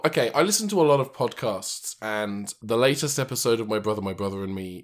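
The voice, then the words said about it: Rough, sick-sounding voice. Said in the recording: “I am sick. ... Oh, yeah, I'm diseased. ... you sound a little rough.”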